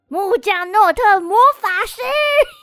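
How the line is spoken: Sudden loud shout. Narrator (Chinese): 木门就突然对天空大喊

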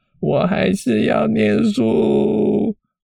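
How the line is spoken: Sobbing loudly. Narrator (Chinese): 小爱听到这里就开始戏剧性的开始掉眼泪，哦，开始放声大哭，说

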